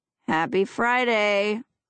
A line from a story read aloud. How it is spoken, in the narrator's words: Lindsay grumbles